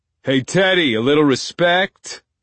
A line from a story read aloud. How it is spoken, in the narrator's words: Nico bellows